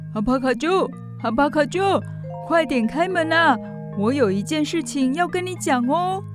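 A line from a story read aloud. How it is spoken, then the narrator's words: Calling out. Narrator (Chinese): 乔凡尼喊着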